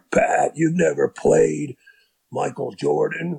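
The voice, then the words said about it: Raspy imitated voice of another person. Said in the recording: “my one impression of Doc Rivers with his raspy voice”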